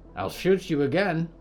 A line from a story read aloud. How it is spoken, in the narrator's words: said